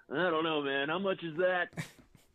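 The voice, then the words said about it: Weak impression of Jon Gruden. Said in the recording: “Is that your John Gruden impression? ... Yeah, you're a lot better than that.”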